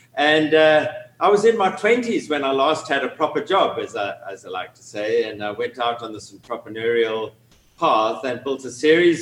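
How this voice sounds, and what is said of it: South African accent. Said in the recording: “from my accent, you can tell I'm originally from Cape Town in South Africa”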